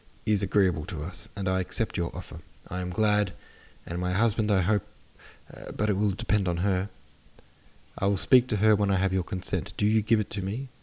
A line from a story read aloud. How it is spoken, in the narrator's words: said Prince Andrei